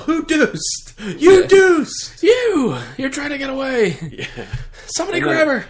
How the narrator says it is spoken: I yell

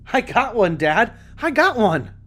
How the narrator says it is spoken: shouted with pure bliss you only find in the innocent

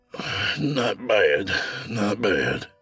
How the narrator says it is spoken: he sighed

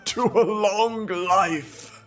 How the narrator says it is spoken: said he, with a sudden bark of laughter

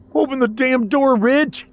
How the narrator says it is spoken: Jonathan shouted in frustration

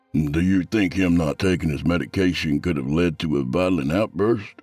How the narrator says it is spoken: Vivian chuckled ominously

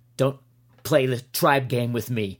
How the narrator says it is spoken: Horner snapped like a rabid terrier

